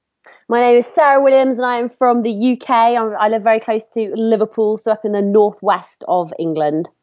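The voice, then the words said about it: British accent, northwest England. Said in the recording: “we love your accent”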